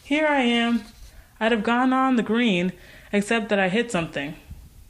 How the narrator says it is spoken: she called cheerfully

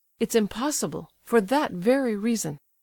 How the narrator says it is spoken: said the prince

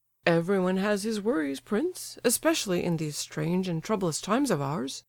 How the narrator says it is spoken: Lebedev replied dryly, and with the air of a man disappointed of his reasonable expectations

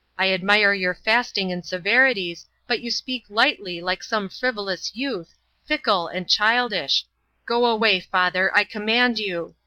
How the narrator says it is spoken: Father Paisley thundered in conclusion

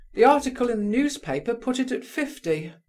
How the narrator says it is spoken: cried Colia

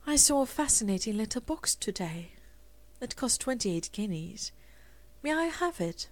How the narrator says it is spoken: Rosemary said dreamily

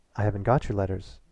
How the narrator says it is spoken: said evenly

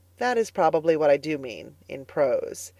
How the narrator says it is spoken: answered Anne gravely

